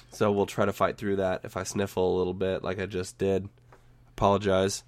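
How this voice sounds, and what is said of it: Raspy, slightly hoarse voice. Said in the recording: “I'm dealing with a bit of a post-nasal drip issue that's irritating my throat and making my voice sound a little bit raspy ... I sort of sound like Batman”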